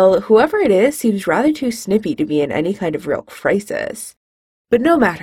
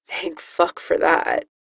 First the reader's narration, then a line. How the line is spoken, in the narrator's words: the voice mutters